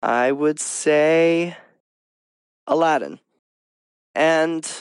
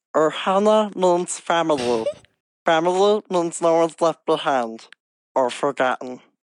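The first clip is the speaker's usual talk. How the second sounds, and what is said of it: Stitch impression. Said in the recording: “I could do a Stitch impression ... You can show your Stitch impression”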